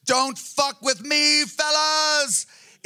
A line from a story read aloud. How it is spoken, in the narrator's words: patientlessly growling